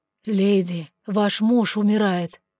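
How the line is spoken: Hoarse. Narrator (Russian): хрипло сообщил третий

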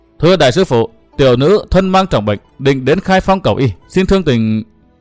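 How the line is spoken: Woman's trembling voice. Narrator (Vietnamese): Nữ nhân trong kiệu nói giọng run run

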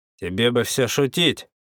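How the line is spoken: Bad-tempered growl. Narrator (Russian): прорычал, явно находясь в скверном расположении духа

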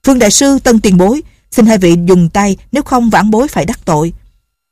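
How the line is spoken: Loud. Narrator (Vietnamese): Lệnh Hồ Xung lớn tiếng nói

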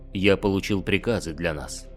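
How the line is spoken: Plain. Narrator (Russian): сказал Гидарес

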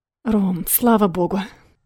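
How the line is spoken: Relieved exhale into phone. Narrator (Russian): Выдохнула в трубку с таким облегчением

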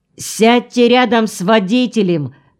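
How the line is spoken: Shouted. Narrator (Russian): крикнул

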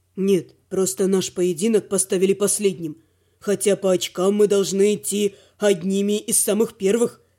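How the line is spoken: Plain. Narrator (Russian): сказал оборотень

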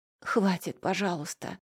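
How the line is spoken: Hoarse, tearful. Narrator (Russian): прохрипела сквозь слезы

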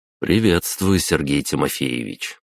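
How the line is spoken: Calm. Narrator (Russian): произнес я спокойно

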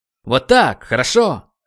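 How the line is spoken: Shouted. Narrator (Russian): выкрикнул тренер

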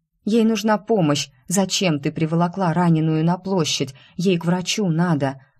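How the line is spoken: Moaning. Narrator (Russian): Застонала

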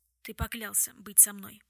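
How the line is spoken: Whisper. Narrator (Russian): прошептал Уилл

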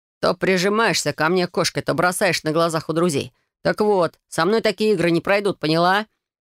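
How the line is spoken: Growl. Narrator (Russian): Прорычал

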